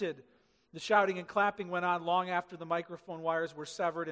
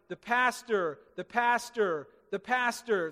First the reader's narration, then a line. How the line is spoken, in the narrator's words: The crowd shouted